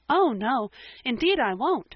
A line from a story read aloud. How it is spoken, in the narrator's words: said Anne eagerly